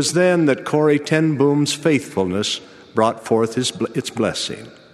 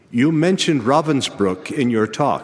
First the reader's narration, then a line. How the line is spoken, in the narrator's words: he said